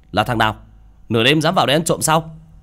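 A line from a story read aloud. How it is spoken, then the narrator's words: Shouted. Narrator (Vietnamese): Hắn miệng quát lên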